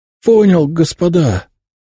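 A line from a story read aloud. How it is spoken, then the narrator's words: Hoarse wheeze. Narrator (Russian): просипел я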